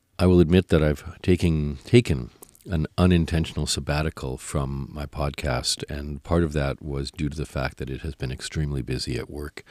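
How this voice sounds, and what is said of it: Deeper, cold-affected voice. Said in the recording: “my voice sounds a little deeper today. It is because I'm just getting over a cold”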